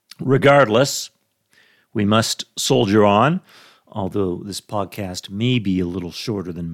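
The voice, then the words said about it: Rough, sick-sounding voice. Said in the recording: “My voice sounds a little rough today. ... I'm suffering from a bug”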